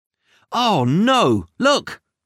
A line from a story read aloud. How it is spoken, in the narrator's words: cried